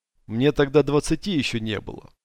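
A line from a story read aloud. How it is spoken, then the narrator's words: Dry. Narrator (Russian): сухо сказал Дикобраз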